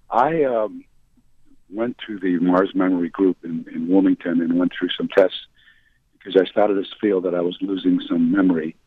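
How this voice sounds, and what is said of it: Hoarse voice. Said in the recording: “Excuse my hoarseness.”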